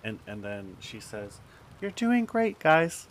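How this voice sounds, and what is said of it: Supportive soccer mom voice. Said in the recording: “This is the most supportive soccer mom voice I'd ever heard in my life.”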